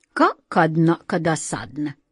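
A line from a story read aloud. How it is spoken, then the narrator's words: Angry male voice. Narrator (Russian): сердито сказал мужской голос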